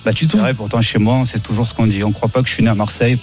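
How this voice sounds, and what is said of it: Marseille accent. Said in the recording (French): “T'as l'accent le plus marseillais. ... t'as un accent magnifique.”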